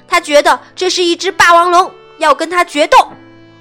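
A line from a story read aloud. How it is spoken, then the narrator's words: Angry shout. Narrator (Chinese): 小智生气地对司机喊道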